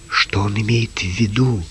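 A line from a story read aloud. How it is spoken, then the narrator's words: Whispered. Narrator (Russian): шепнул Джим Лукасу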